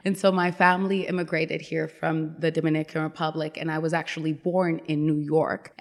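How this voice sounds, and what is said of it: Very thick accent. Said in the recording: “I have a very thick accent, I guess... you talk funny”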